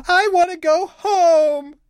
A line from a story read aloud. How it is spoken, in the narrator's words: cries